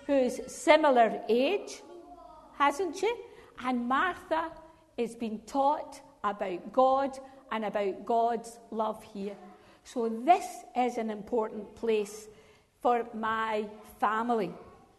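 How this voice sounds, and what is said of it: Scottish accent. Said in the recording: “that woman's got a funny accent ... a wee bit over Scottish”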